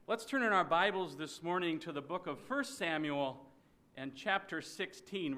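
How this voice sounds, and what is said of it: Minnesota accent. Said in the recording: “I come from Minnesota, so you'll recognize my accent.”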